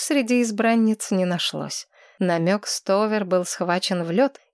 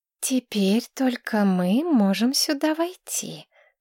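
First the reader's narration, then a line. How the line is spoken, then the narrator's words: Drawling. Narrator (Russian): протянула Кристина Дорфер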